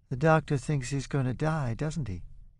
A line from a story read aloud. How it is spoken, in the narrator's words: Lisa asks